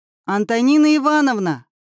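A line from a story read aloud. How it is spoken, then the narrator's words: Yell. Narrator (Russian): заорал Семён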